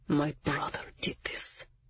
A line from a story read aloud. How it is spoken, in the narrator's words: hissed, as if he could barely get the words out